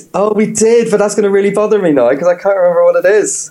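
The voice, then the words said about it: Mild Northern Irish accent. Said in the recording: “we might be able to detect from your accent you're from Northern Ireland ... I have an accent ... Just a little. Just a tad ... I speak slower.”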